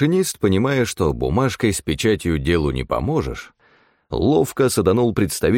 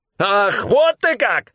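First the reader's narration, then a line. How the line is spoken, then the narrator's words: Shriek. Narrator (Russian): взвизгнул тот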